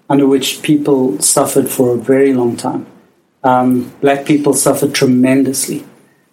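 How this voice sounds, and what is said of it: South African accent. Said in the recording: “as you can hear from my accent, I am South African”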